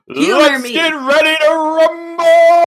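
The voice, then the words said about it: Booming wrestling announcer voice. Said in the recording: “Best WWE announcer voice.”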